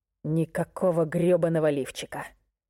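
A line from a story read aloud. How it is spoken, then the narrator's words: Growl. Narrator (Russian): прорычал он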